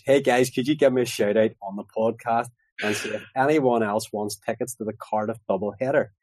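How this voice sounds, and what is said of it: Belfast accent. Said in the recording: “you've got a Belfast accent.”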